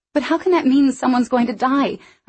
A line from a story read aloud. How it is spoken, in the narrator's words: I said desperately